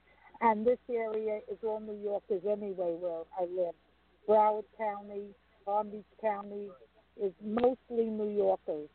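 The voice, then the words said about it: New York accent. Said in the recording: “the accent will stay on the day I die ... all the New Yorkers”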